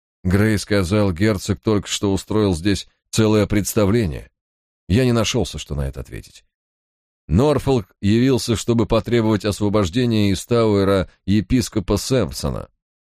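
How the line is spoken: Detached flat tone. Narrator (Russian): продолжал Кромвель все тем же безучастным тоном

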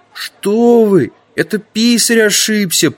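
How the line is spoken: Young man whimpering. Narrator (Russian): прохныкал один из юнцов

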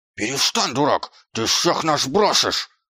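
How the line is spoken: Growling. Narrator (Russian): прорычал Господ

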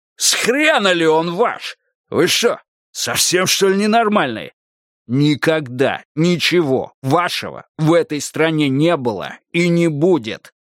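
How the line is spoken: Loud, clipped. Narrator (Russian): громко отчеканил он

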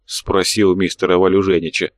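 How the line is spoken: Grumbling. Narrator (Russian): пробурчал фракторист

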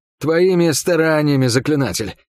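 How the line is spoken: Hoarse wheeze. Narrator (Russian): просипел я

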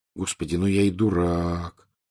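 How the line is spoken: Quiet. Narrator (Russian): тихо произнес он

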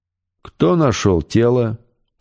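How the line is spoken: Very calm unaccented question. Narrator (Russian): очень спокойно спросил официант, без малейшего акцента, совсем не так, как прислуживая за столиком

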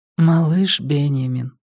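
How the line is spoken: Tender, affectionate. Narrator (Russian): ласково произнесла она

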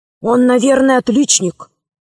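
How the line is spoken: Quiet. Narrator (Russian): сказал тихо Удалов

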